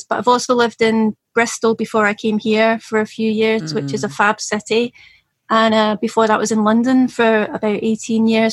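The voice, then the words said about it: Soft Scottish accent. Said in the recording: “Originally and from Scotland ... you have that beautiful accent ... it's soft, it's soft now, so you can understand it”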